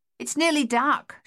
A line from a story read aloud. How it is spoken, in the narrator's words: she called out